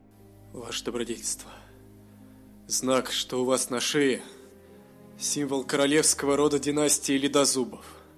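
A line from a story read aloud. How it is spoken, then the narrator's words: Admiring mutter. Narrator (Russian): восхищенно пробормотал Бовар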